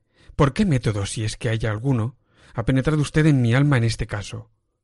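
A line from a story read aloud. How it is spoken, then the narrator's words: Exclaimed. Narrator (Spanish): exclamé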